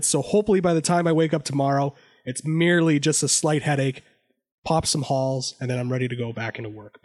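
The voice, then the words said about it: Voice not fully recovered. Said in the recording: “my voice is somewhat coming back”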